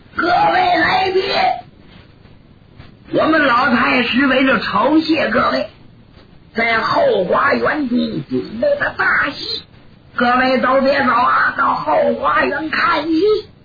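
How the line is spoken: Loud announcement. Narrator (Chinese): 庞喜 就喊上了

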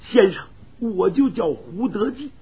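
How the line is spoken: Crying. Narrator (Chinese): 胡德济哭着

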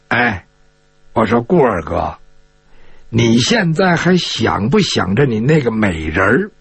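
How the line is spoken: Low voice. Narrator (Chinese): 张昭仲低声的跟这顾金彪说

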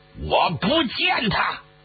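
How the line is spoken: Furious, through gritted teeth. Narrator (Chinese): 许世友是怒发冲冠呐，从牙缝里挤出了几个字儿

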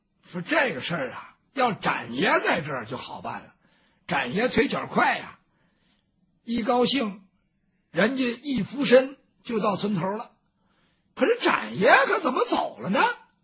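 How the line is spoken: Plain. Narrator (Chinese): 包兴说这话

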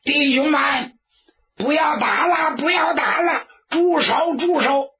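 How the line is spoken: Loud shout. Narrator (Chinese): 这家 高声喊喝

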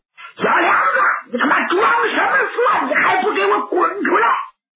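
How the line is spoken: Angry shouting. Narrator (Chinese): 蒋平这火就不打一处来，冲着耳房就喊

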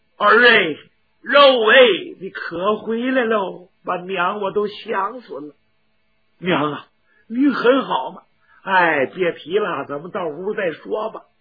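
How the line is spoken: Sobbing. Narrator (Chinese): 娘俩一见面，抱头痛哭

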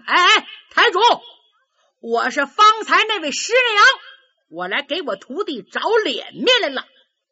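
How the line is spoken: Shouting. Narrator (Chinese): 下边有人喊

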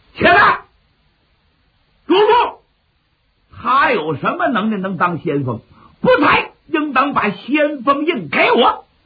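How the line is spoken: Stern shout. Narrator (Chinese): 一人厉声喊喝

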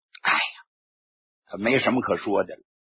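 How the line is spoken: Heavy sigh. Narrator (Chinese): 贺龙长叹了一声

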